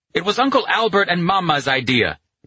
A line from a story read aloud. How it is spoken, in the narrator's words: Pino shouted back